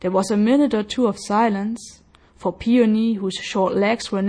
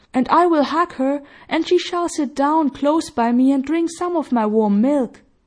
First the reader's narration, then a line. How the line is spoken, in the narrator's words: cried Peony